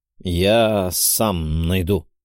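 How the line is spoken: Grumbling. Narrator (Russian): буркнул я

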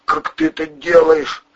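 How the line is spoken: Hoarse wheezing. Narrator (Russian): хрипел Андрей

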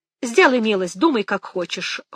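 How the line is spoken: Cold. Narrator (Russian): холодно сказала Мэгги

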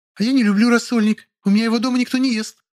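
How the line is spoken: Deafening high-pitched shriek. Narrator (Russian): взвизгнула Лиля оглушительным голосом на 4 октавы

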